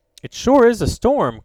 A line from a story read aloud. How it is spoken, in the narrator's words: cried Ned